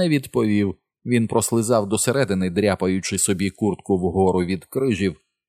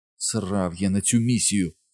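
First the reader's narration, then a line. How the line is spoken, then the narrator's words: Despairing mutter. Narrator (Ukrainian): розпачливо пробурмотів собі Річі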